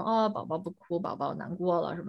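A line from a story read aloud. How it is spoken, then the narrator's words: Gentle, soothing. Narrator (Chinese): 妈妈这种温柔的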